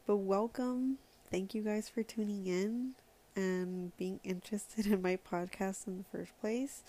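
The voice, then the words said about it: Unusually happy, upbeat voice. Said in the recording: “my voice is like sounding a little bit different because I'm really like happy today”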